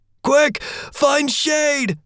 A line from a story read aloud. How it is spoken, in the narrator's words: Follower shouted